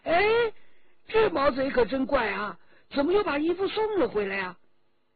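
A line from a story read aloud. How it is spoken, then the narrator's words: Crying out. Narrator (Chinese): 周琦已经叫了起来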